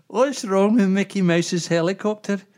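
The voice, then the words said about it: Unconvincing put-on Scottish accent. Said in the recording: “your Scottish accent ... That's not a Scottish accent for a start. You sound like some Arab.”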